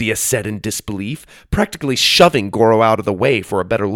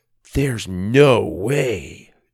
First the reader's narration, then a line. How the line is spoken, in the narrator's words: Doug mumbled